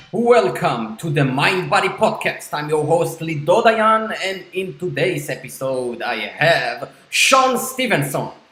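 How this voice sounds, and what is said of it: Jewish-accented English. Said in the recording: “with the sexy Jewish accent”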